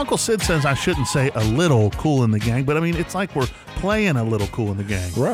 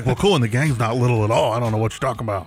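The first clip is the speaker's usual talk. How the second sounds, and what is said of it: Imitates another person's voice, not well. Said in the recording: “Did I do a good Uncle Sid impersonation? Not so good. ... It could have been better.”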